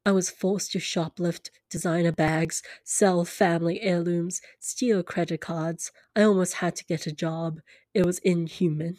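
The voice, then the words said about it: Unidentified put-on accent while reading. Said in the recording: “I don't know what accent I'm putting on, but it's happening”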